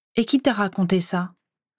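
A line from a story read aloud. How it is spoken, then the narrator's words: Curt female question. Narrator (French): demanda-t-elle sèchement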